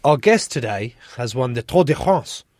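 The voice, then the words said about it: Mock French accent. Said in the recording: “Do I say that in French accent or no?”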